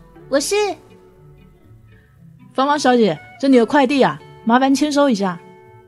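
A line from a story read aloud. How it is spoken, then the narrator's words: Hurried reply. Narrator (Chinese): 芳芳 听到有人喊她，忙不迭的 说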